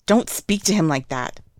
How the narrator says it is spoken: Wen Qing hisses

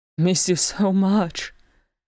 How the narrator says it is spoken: echoed Gimli

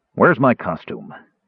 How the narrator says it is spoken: He grumbled

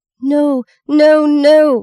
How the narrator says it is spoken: Maggie screamed

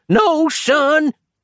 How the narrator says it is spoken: yelled the pensioner

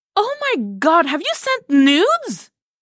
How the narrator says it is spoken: Cassie all but shrieked

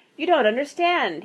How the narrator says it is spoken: said desperately

